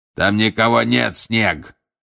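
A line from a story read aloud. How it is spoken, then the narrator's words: Shouted. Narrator (Russian): крикнул Грюм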